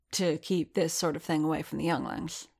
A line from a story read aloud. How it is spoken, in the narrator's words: said Skywalker quietly